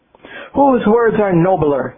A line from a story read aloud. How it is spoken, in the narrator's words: Devadatta exclaimed